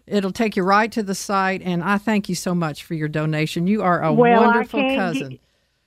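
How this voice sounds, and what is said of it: Texan accent. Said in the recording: “Did I not get my accent back? ... Immediately. ... It takes one Texan.”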